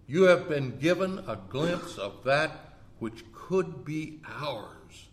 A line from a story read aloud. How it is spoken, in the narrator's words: Arlo replied